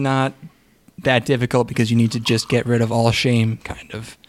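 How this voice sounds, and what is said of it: Usual voice. Nothing is said of it.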